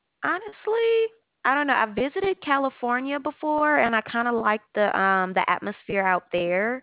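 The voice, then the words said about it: Southern US accent. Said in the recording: “Southern accent... I love Southern accents.”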